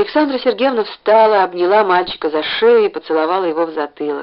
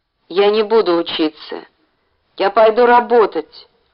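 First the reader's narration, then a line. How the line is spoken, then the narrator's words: Gloomy. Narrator (Russian): мрачно сказал Ленька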